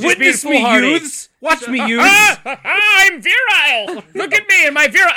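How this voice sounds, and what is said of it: Higher-register comic character voice. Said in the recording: “This is my Brian voice, apparently. ... It's a much higher register.”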